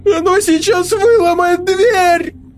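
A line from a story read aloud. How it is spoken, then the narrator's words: Howling in panic. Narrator (Russian): Взвыл Игорь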